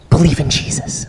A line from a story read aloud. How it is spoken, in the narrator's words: leans in really close, whispers